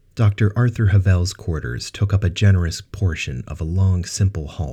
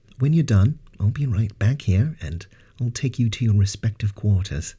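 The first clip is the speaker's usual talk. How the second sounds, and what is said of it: Good-natured accented character voice. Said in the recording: “Banks said in his good-natured accent.”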